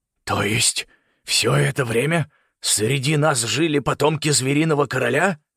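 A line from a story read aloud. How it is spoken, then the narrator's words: Trembling voice, fear or anger. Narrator (Russian): спросил генерал дрожащим голосом, хотя непонятно было, от страха это или от гнева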